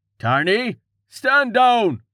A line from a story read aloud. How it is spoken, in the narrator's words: Someone shouted